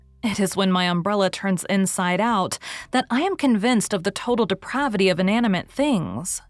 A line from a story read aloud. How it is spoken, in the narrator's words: she said gaily